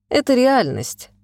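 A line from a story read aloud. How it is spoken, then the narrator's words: Sighing. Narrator (Russian): вздохнул Николаев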